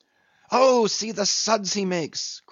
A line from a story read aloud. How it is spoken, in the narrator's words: cried Flask